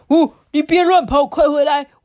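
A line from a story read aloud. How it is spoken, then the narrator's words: Hurried call. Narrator (Chinese): 赶快叫他回来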